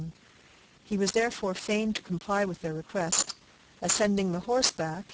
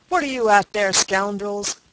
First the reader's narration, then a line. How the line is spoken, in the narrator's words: cried Lieutenant Mason